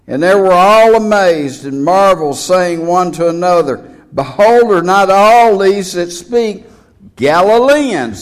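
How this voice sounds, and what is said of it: Texan accent. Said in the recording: “I'm speaking plain Texan to you... there's no doubt where I'm from, is there? There's just no doubt at all.”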